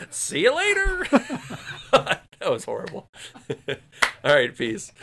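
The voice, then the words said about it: Cartoon character voice. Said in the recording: “in your mallow voice”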